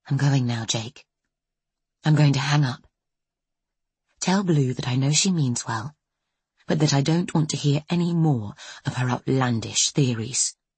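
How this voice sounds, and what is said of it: Very quiet voice. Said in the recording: “she says, in a very quiet voice”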